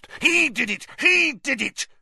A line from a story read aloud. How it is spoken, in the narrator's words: Filch spat, his pouchy face purpling